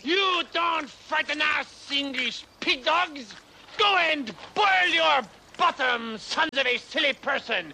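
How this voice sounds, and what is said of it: Outrageous put-on French accent. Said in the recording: “I'm French. Why do you think I have this outrageous accent”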